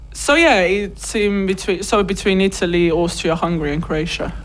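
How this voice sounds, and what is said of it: Strong Slovenian accent in English. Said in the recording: “It's quite a strong accent.”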